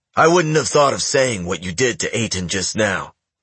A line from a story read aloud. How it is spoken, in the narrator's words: Ken said in a gruff voice